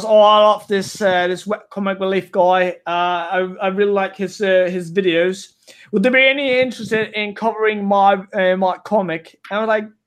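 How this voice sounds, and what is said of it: Bad put-on English accent. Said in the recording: “the worst English accent you've ever heard in your entire life ... it's probably not even English. It's just an accent I can do”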